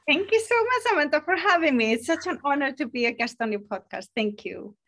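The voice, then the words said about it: Icelandic accent. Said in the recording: “a little bit of an accent ... I am from Iceland ... with a lovely accent”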